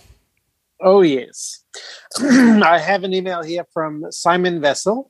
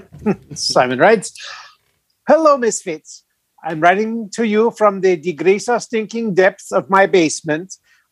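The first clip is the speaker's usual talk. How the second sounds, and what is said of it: Put-on Swedish accent. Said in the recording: “the following message should be read with this Swedish accent, whatever that sounds like. ... No, it sounds just like that.”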